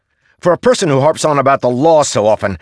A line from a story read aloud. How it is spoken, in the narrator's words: Kaladin snapped